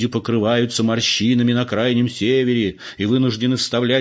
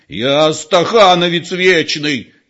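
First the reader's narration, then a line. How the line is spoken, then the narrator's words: Old man nearly shouting. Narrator (Russian): чуть не закричал старик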